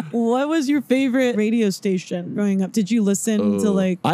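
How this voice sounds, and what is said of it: Usual voice. Nothing is said of it.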